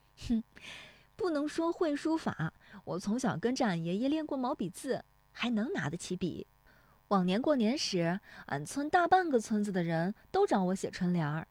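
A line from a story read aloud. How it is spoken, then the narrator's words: Laughing. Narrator (Chinese): 乔红梅笑说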